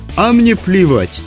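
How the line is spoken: Cheerful. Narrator (Russian): так же весело ответила ведьма

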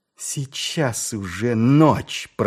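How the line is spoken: Growl. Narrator (Russian): прорычала она

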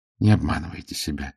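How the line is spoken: Quiet. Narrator (Russian): негромко сказала она

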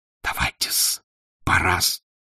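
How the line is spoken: Whispering. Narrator (Russian): шепнул пристав

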